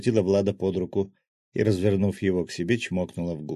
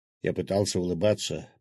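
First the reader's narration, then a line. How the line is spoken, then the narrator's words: Mumbling. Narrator (Russian): пробормотал главный гвардеец Савина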